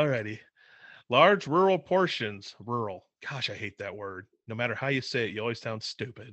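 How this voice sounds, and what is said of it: Usual voice. Nothing is said of it.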